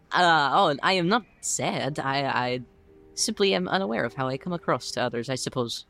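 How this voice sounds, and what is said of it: Foreign character accent. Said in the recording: “I was wondering where that accent was from.”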